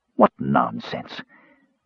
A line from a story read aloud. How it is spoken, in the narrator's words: the mage snarled